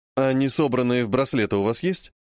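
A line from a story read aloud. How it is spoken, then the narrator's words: Plain. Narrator (Russian): спросил уже я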